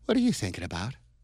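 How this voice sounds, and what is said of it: Imitated girlish voice. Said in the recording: “in the girl voice”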